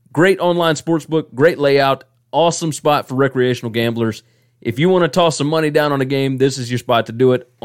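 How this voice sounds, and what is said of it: Southern American drawl. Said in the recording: “my southern drawl”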